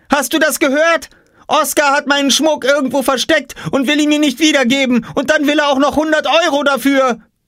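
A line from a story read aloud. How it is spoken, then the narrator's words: Shouting. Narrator (German): schrie Jule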